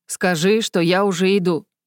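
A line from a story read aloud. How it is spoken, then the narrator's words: Loud. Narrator (Russian): громко отозвался монарх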